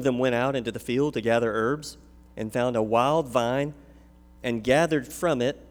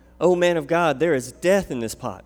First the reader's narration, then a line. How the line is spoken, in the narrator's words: they cried out